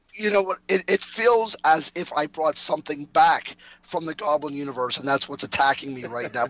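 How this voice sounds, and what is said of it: Hoarse voice. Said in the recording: “I am a very hoarse”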